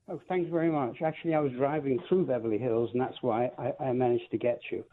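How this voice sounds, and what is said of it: Posh British London accent. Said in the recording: “I love that British accent. ... Originally from London. ... Oh, you're posh.”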